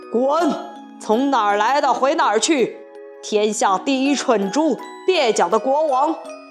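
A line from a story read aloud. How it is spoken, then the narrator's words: Harsh, stern. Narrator (Chinese): 皮迪克……厉声说道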